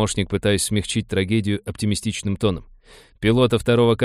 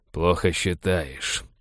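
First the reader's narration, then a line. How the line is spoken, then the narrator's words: Through gritted teeth. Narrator (Russian): процедил Балфер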